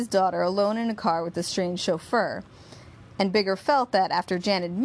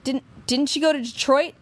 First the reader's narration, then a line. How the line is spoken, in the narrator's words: Jan stammered